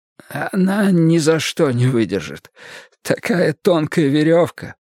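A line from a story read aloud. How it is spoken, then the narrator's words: Hoarse remark. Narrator (Russian): Кэролайн хрипло заметил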